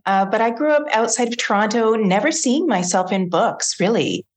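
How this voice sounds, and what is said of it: Canadian accent. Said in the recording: “I'm Canadian. You'll probably hear my accent as I'm talking.”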